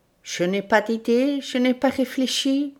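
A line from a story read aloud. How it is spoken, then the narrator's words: Murmuring. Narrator (French): murmura-t-il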